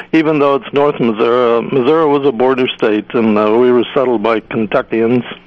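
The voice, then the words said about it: Southern American accent. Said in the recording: “You have a wonderful Southern accent ... we tend to speak a bit Southern”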